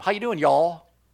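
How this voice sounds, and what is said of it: Put-on Southern US accent. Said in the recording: “He's not from the north, is he? He's from the south.”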